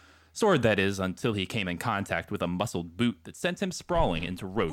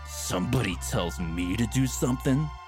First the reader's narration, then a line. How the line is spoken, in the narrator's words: Sangjun growled like a feral beast, cornered and wounded, but ready to fight, ready to kill